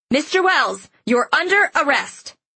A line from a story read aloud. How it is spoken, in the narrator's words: a group of men in black suits shouting